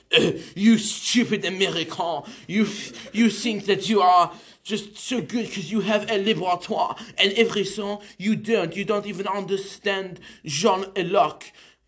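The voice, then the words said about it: Put-on French accent. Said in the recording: “that's my impression of French”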